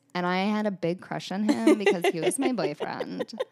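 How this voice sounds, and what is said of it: Put-on Valley girl accent. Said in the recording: “That's my LA accent. ... That's your Valley accent? ... That's my Valley accent.”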